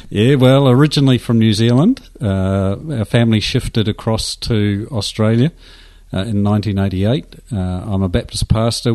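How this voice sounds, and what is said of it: Slight New Zealand accent. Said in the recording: “I sense a bit of a Kiwi accent.”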